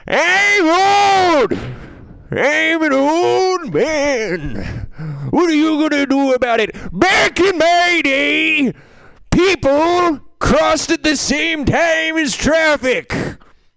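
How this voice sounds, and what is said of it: Old man character voice. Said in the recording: “do an impression of an old man”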